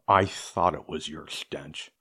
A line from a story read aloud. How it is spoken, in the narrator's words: growled